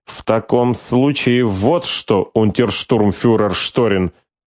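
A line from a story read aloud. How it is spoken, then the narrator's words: Through gritted teeth, imitating. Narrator (Russian): процедила она сквозь зубы, явно подражая при этом Скорцени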